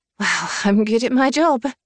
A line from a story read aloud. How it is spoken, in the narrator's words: I said with a small laugh